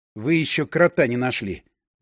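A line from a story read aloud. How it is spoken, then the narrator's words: Grumbled. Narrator (Russian): буркнул я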